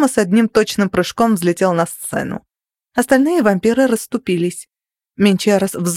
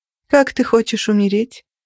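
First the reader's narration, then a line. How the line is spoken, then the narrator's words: Almost bored question. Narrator (Russian): почти скучающим тоном спросила я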